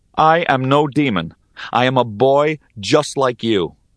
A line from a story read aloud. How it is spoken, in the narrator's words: My voice shaking, I declared